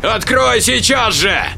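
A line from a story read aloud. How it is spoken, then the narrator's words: Yelling. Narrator (Russian): Заорал Джек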